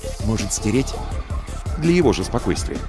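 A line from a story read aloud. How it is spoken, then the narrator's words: Low-voiced question. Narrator (Russian): спросил вполголоса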